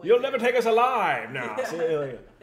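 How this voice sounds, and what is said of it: Old-time gangster accent. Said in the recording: “They're all talking with the accent... I love their accents.”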